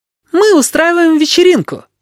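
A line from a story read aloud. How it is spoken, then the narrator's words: Cheerful inviting shout, young woman. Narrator (Russian): весело крикнула молодая женщина, всем своим тоном приглашая его присоединиться к веселью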